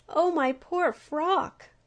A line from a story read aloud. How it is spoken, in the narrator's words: cried the humblebee, gazing sadly